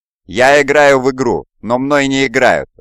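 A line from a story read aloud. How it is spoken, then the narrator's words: Demon shouting. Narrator (Russian): закричал демон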